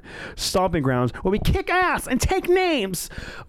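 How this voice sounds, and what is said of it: Imitates another person's voice. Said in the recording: “my Michael Cole impression”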